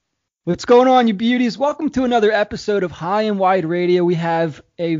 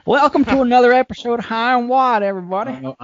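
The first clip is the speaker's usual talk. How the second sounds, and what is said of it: Put-on southern accent. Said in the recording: “that same shitty southern accent”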